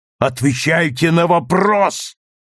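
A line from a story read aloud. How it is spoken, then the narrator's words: Thundered. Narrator (Russian): прогремел Мейсон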